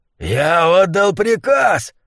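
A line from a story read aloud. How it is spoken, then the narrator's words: Roaring. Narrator (Russian): взревел Гуляш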